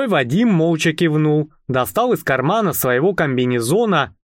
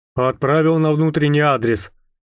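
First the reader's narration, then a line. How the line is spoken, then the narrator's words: Quiet, nearly flat voice. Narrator (Russian): сказал он своим тихим, почти безэмоциональным голосом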